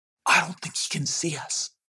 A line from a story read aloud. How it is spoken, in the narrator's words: whispered Punchem